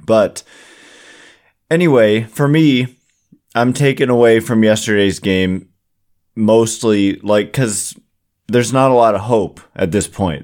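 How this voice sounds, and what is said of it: Hoarse, partly lost voice. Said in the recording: “Excuse my voice, by the way. I don't know what's happening ... maybe the smoke that's in the area, but my voice is kind of gone.”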